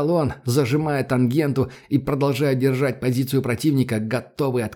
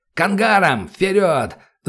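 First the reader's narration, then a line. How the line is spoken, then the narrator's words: Yelling. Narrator (Russian): заорал Добрынин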